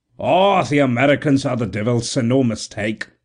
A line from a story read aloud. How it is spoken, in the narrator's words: exclaimed